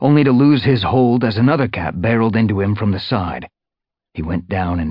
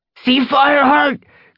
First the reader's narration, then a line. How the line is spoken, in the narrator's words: Cloudpaw yelled